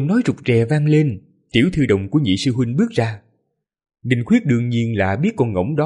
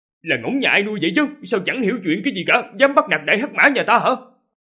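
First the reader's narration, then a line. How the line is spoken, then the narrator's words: Indignant shout. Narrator (Vietnamese): đồng cảm sâu sắc, hắn quát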